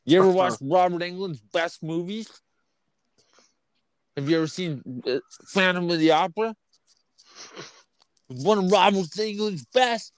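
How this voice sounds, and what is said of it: Exaggerated nerdy character voice. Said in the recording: “That should be the new nerd voice.”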